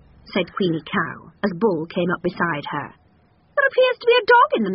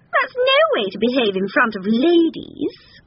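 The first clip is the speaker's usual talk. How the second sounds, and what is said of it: Sulky character voice. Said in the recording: “in a sulky voice”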